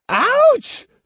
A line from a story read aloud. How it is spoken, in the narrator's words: screamed Jotaro